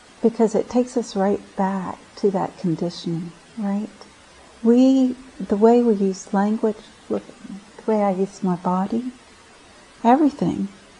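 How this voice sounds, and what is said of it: Speaks with a noticeable accent. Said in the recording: “It's my accent. I don't even know I have an accent, but Patricia's like, "Oh, I love your accent."”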